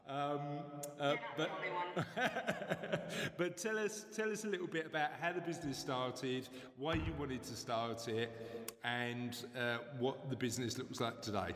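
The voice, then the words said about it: East End London accent. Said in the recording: “my East End accent”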